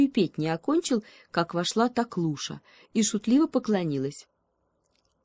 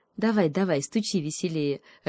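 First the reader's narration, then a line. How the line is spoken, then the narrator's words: Laughing. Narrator (Russian): рассмеялась Таклуша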